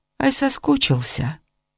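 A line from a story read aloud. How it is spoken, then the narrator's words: Tender smiling whisper, old man. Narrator (Russian): Старик ласково, улыбаясь, шепотом спросил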